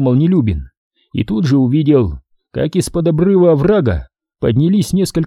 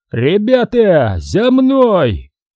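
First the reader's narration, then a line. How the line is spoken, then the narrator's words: Shout. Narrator (Russian): крикнул Нелюбин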